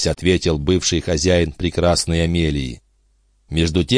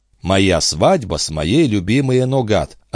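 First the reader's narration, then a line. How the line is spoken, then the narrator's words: Plain. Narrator (Russian): ответил Жюэль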